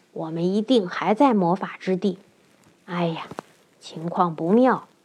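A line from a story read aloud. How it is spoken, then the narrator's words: Frightened, low voice. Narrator (Chinese): 月亮脸吓得低声说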